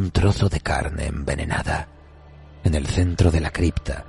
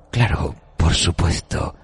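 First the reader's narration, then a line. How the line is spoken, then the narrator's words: Affectedly cordial whisper. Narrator (Spanish): susurró con afectada cordialidad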